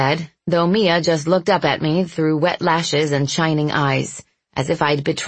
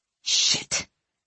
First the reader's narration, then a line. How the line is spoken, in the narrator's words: I hissed